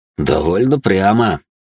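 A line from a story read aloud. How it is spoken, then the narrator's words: Mentor's grunt. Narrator (Russian): хмыкнул наставник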